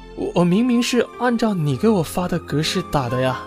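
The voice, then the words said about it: Quiet, timid, hesitant speech. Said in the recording (Chinese): “实习生有点不知所措的低着头，小声的说道”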